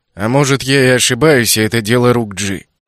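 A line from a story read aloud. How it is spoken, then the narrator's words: Gloomy, through gritted teeth. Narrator (Russian): Мрачно буравя взглядом экран, процедил Дайсон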